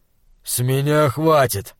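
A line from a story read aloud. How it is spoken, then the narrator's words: Grumbling. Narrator (Russian): проворчал Тор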